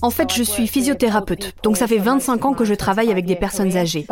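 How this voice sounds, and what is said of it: British accent speaking French. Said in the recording (French): “Elle a un superbe accent britannique”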